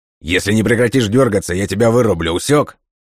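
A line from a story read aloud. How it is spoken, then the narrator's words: Bark, soldier. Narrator (Russian): Рявкнул военный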